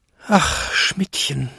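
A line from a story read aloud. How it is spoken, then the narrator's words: Old man groaning in despair. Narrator (German): stöhnte Jakob in plötzlicher Verzweiflung, als er seine alten Beine zittern fühlte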